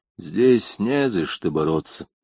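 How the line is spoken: Sad objection. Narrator (Russian): Печально возразил Тека

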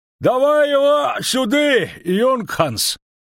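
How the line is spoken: Distant shout. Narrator (Russian): крикнул один из тех, что стояли на дороге дальше

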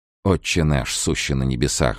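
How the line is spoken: Muttering through teeth. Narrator (Russian): бормотал он сквозь зубы

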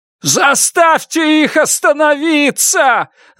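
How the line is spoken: Yelled. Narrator (Russian): завопил Уильям

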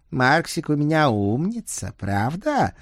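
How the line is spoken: Cooing to a pet. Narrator (Russian): проворковала она, обращаясь к любимцу

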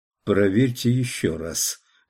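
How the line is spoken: Forced calm command. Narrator (Russian): приказал Маклин Ломбарду самым спокойным голосом, на какой был способен

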